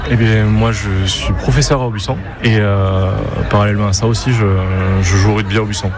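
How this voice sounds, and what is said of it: Southern French accent from Castres. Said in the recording (French): “qui vient de Castres, justement. On va l'entendre avec son accent.”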